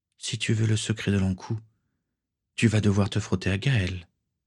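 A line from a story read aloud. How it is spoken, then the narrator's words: Whispered. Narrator (French): souffla Swazik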